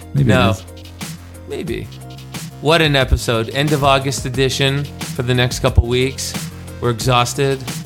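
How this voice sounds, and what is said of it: Hoarse, worn-out voice. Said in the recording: “I lost my voice.”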